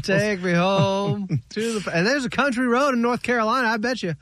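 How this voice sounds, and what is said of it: Put-on accent. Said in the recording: “You've got the accent going too. I like it.”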